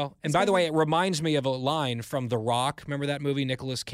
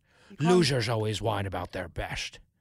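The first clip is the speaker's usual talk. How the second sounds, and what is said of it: Poor Sean Connery impression. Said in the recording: “Sean Connery says ... That was a terrible impression.”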